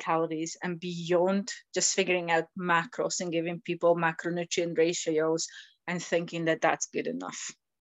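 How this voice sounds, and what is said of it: Slight Scottish accent. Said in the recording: “You've got an interesting accent. I'm picking up the Scottish accent there ... I have a wee bit of a Scottish accent”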